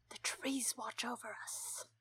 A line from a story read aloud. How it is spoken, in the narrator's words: Gilly whispered